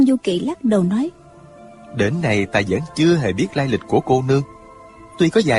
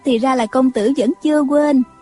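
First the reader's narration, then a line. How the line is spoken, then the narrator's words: Smiling. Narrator (Vietnamese): Nàng mỉm cười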